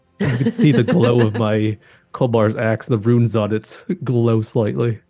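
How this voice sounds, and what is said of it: Usual voice. Nothing is said of it.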